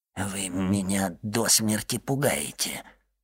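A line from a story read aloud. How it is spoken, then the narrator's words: Male mumble. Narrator (Russian): пробормотал Кадрус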